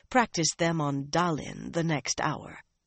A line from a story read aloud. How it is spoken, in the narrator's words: she said softly